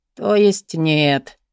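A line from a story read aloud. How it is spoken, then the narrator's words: Grumbling. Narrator (Russian): пробурчал Кевин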